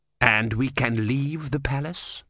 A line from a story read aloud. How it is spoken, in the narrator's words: said Vorbis coldly